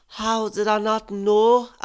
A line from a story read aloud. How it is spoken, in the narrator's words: I wailed